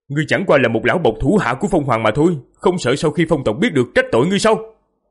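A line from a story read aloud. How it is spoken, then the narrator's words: Loud demanding shout. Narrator (Vietnamese): Diệp Phàm lớn tiếng quát hỏi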